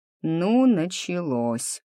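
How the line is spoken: Groaning. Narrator (Russian): застонал Андрюша

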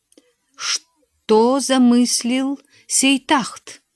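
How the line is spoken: Plain question. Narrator (Russian): спросил водонос

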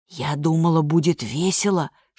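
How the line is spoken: Whisper. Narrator (Russian): шепнула

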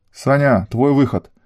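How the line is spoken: Barking. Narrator (Russian): рявкнула девушка

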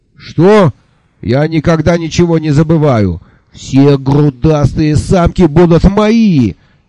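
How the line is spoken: Yelling. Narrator (Russian): заорал Изамонец

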